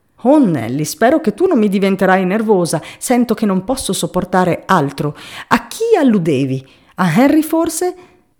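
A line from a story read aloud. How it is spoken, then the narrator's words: Frightened exclaiming. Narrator (Italian): esclamò la povera Benford, spaventata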